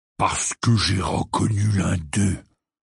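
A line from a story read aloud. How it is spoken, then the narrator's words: Growling. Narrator (French): grogna Hagrid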